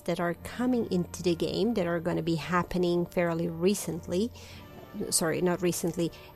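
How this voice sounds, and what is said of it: Non-native English accent. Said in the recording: “English is not my native language, as you can probably tell from my accent.”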